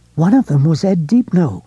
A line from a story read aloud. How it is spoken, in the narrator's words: Lois said breathlessly